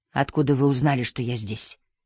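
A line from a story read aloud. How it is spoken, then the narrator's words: Hoarse, tense voice. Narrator (Russian): Голос ее был хриплым и напряженным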